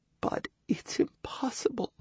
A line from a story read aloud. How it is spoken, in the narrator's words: Tears ran down the girl's cheek as, in a whisper, she added